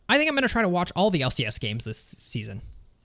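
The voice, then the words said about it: Imitates another person's voice. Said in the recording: “do my best Snake impression”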